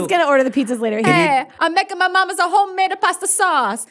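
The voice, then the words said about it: Bad put-on Italian accent. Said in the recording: “I don't know if I can keep up a really bad Italian accent.”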